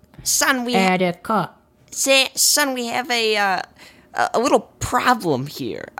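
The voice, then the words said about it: Imitates another person's voice. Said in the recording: “I'll do my best Pesci right now ... It's going into fucking Chris Walken ... I keep slipping into Chris Walken”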